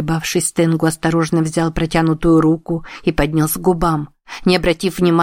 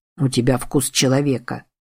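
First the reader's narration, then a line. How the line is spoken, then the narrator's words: Quiet. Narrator (Russian): сказал он негромко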